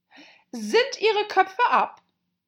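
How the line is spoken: Queen calling out. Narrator (German): rief die Königin

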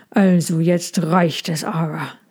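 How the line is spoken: Growling. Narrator (German): sagte er und knurrte

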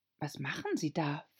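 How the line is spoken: Whispered. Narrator (German): flüsterte Alice dem Greif zu

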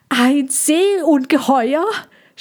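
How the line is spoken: Shouting. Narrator (German): schrie Kassandra und freute sich erstmal über ihre großartige Fantasie

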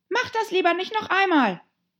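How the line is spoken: Said to oneself. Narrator (German): sagte sich

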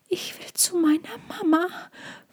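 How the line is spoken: Frightened whisper. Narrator (German): flüsterte Tommy, weil er Angst hatte

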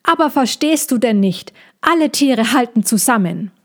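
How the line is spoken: Calling out. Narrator (German): rief

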